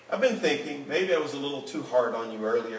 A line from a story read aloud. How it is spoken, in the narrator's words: said the man